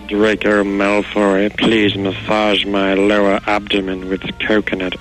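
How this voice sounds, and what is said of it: Professor Snape character impression. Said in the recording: “does a fantastic Professor Snape impersonation ... do the Snape thing ... It's my Snape”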